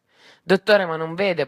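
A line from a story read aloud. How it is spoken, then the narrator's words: Stammered. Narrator (Italian): balbettai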